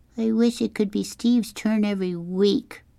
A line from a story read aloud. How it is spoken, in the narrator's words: Kevin whined